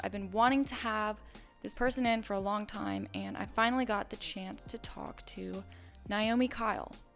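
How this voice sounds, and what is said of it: Hoarse, fading voice. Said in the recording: “I think I'm losing my voice.”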